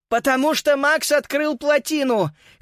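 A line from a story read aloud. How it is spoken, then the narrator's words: Hoarse shout. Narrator (Russian): хриплым голосом прокричала в ответ Фрида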